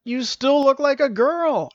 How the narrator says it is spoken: exclaimed Stavius

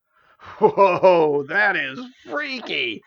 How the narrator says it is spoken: exclaimed Juice

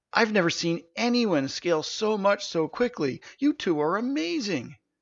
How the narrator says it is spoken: She gasped

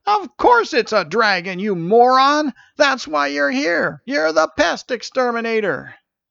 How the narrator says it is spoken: Marlin yelled

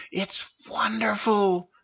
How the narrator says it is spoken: she whispered in his ear

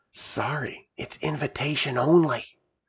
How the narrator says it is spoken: said in a hushed voice

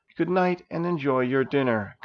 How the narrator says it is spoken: Gar kindly said

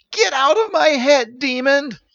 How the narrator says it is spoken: yelled Stephen

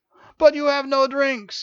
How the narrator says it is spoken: he exclaimed

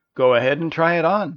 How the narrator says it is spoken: laughed her mother

